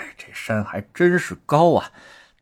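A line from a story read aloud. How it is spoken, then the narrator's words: Panting heavily. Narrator (Chinese): 大口喘着粗气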